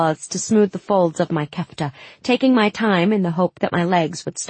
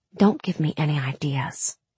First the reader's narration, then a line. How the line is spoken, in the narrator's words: I whispered